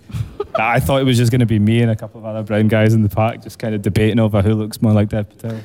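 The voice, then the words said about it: Scottish accent. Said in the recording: “In case the Scottish accent was getting anyone.”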